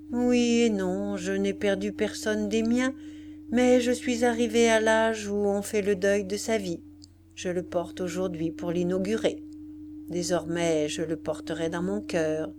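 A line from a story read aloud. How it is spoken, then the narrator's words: Sad reply. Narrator (French): Elle répondit tristement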